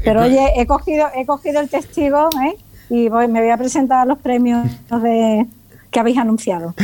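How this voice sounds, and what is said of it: Southern Spanish accent. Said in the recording (Spanish): “por tu acento vemos que no estás aquí en Madrid o que no eres de Madrid ... soy un poquito del sur”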